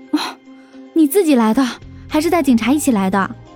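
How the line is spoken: Breathless, quick question. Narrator (Chinese): 林阳喘了口气，马上问道

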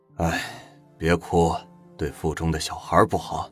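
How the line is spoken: Flat, indifferent. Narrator (Chinese): 汪元庚淡淡的说

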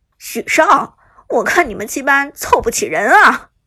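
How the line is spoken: Laughing. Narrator (Chinese): 阿田更是笑着说道

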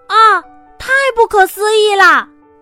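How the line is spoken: Amazed exclamation. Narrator (Chinese): 米拉惊叹

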